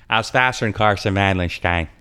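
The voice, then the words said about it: Imitates another person's voice. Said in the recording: “going to do a Scott Russell impersonation.”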